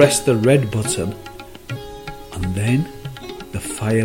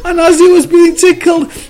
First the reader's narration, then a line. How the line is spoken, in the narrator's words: the cup screamed